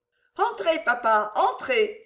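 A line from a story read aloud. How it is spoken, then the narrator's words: Exclaiming. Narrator (French): s'écria Ida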